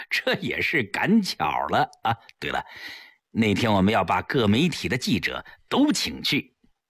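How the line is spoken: Modest, smiling. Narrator (Chinese): 齐长鹏笑笑，谦虚地说

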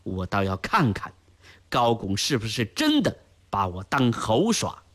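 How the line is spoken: Venomous, through gritted teeth. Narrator (Chinese): 不免心中一阵烦躁，带之而来的是一种刻毒的报复心理，咬牙说道

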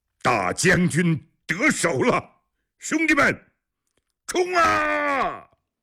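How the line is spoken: Loud shout. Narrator (Chinese): 大喊

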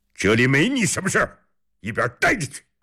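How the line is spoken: Shouting. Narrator (Chinese): 李元昌冲他大喊着

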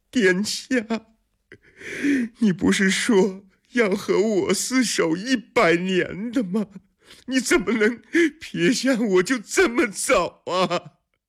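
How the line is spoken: Shocked, sobbing uncontrollably. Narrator (Chinese): 海棠闻言如遭雷击 失声痛哭

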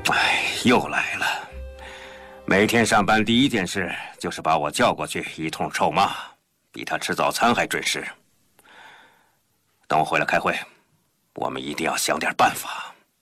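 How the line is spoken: Sighing. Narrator (Chinese): 杰普洛夫叹了口气

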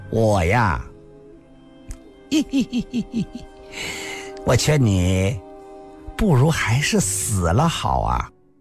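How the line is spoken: Smiling, soft. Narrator (Chinese): 林仙儿 柔声地说道

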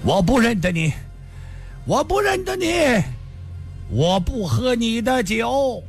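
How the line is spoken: Loud shout while running. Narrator (Chinese): 这人跑得更快了，大声地叫道

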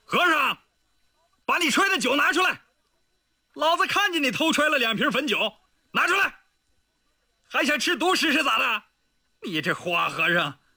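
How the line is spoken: Loud shout. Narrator (Chinese): 他 朝屋外大吼道

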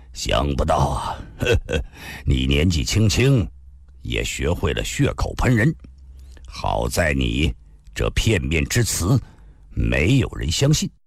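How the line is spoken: Agitated, sneering laugh. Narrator (Chinese): 情急之下仰天打了个哈哈，冷笑地说道

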